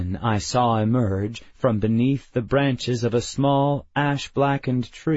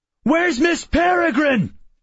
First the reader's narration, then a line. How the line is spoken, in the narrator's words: I shouted